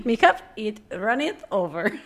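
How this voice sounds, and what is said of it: Pirate voice. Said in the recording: “I was trying to do like a pirate.”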